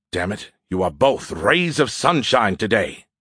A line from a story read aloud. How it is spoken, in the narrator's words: the beer can grumbled